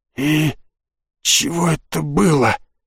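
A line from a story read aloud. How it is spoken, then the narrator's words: Hoarse rasp after deep breath. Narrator (Russian): сделал самый глубокий вдох в своей жизни, только затем прохрипев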